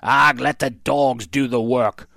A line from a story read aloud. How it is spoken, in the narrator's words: growled Cap'n Bones